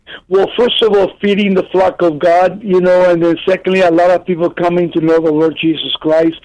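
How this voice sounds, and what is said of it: Non-native accented English. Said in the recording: “my accent... my accent never left me”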